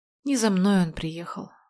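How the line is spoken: Sigh. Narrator (Russian): вздохнула я

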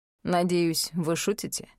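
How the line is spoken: Dry question. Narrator (Russian): сухо спросил Аид

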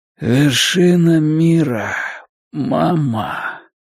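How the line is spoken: Rasping wheeze. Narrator (Russian): Гарольд прохрипел

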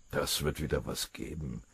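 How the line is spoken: Low murmur. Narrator (German): raunte Maschinger dem Oberfeldwebel zu

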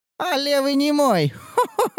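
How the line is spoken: Old healer's croaking laugh. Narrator (Russian): Засмеялась знахарка каркающим смехом

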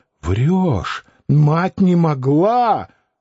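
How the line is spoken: Stung shout. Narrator (Russian): Испытав впечатление ожога, Клим закричал

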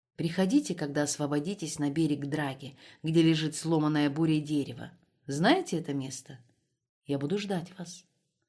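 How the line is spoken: Whisper. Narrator (Russian): шепнул Розе

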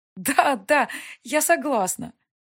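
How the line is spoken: Laughing. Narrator (Russian): Засмеялась

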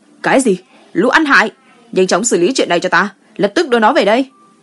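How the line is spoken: Angry shout. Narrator (Vietnamese): Gu Chiyong hét lên

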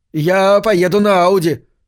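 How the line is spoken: Shouted to friends. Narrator (Russian): крикнул он своим приятелям

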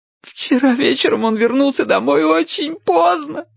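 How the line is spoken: Choking on sobs. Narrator (Russian): захлебываясь от рыданий, проговорила Чарли

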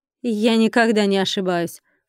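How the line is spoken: Female snort. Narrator (Russian): фыркнула она

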